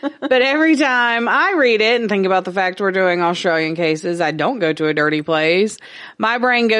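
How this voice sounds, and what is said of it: Usual voice. Nothing is said of it.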